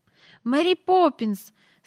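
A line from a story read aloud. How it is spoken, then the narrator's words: Frightened trembling cry. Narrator (Ukrainian): скрикнула Джейн тремтячим голосом, бо їй раптом не знати чому зробилося страшно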